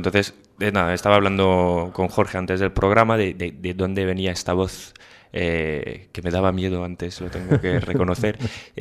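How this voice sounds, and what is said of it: Foreign accent speaking Spanish. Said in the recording (Spanish): “como mi acento a lo mejor lo indica, no soy de aquí”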